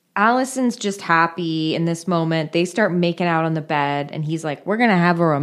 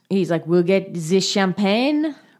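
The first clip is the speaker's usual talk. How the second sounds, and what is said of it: Silly put-on French accent. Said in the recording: “he has a really stupid French accent ... put on a silly accent”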